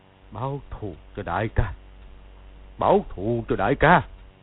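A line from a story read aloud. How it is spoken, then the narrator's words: Startled muttering. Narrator (Vietnamese): Từ Ân giật mình lẩm bẩm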